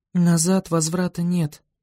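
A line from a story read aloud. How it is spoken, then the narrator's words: Muttering under breath. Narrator (Russian): пробормотала сзади Виола себе под нос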